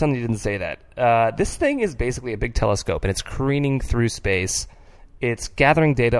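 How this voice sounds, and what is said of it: Usual voice. Nothing is said of it.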